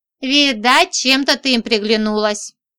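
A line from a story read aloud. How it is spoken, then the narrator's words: Amused grunt. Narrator (Russian): хмыкнул мой собеседник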